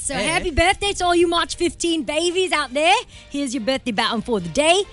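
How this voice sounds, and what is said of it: Put-on Australian accent. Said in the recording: “everybody's birthday baton today will be in my wonderful Australian accent”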